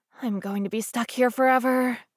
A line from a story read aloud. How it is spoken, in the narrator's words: she muttered under her breath